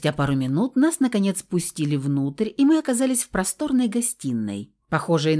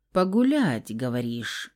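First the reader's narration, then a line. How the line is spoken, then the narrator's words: Mysterious drawl. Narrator (Russian): Загадочно протянул блондин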